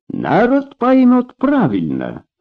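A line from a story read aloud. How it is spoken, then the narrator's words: Accented speech. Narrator (Russian): с характерным акцентом произнес генерал Баграмян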